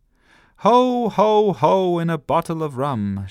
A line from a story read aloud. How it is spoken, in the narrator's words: she shouted